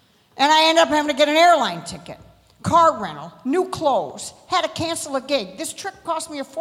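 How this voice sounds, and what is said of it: Usual voice. Nothing is said of it.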